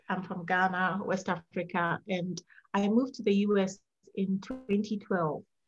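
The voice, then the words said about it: Slight foreign accent. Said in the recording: “You have a little bit of an accent, which I love.”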